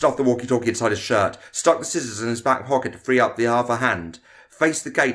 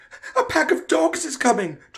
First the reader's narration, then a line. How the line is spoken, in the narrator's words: Tom yelled